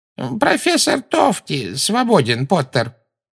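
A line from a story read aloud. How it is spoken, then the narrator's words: Creaky voice. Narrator (Russian): проскрипел Флитвик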